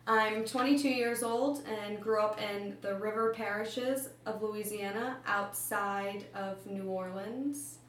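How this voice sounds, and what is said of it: New Orleans city accent. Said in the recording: “my accent is closer to the city's accent as opposed to the Yat or Kunas accent of the river parishes”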